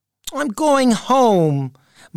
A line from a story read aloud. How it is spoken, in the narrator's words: Marvin said to himself sadly